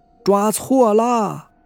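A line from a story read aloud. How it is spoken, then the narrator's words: Old man's loud cry. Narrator (Chinese): 老人大叫一声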